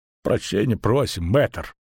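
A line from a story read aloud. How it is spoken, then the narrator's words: Barely audible mutter. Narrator (Russian): пробормотал он еле слышно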